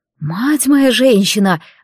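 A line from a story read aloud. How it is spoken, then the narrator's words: Breathless exhale. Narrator (Russian): выдохнула я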